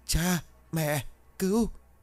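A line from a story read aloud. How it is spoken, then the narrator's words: Broken tearful words. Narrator (Vietnamese): Nó mếu máo không thành câu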